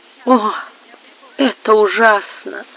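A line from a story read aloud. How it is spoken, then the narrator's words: Moaning. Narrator (Russian): простонала Амаранта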